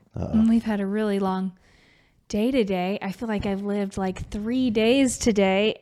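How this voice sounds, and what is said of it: Hoarse, fading voice. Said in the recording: “I think I'm losing my voice a little bit”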